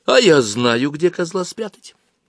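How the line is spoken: Exclaimed. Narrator (Russian): воскликнула Аглая

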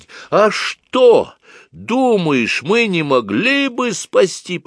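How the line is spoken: Almost shouting. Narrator (Russian): почти закричала она

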